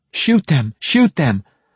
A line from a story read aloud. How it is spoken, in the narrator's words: another of the trailing runners, a woman, shouted desperately